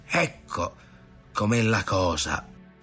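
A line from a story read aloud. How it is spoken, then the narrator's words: Muttering. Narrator (Italian): borbottava Ntoni di padron Ntoni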